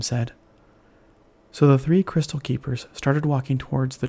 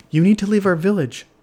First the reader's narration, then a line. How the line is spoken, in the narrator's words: shouted one of the villagers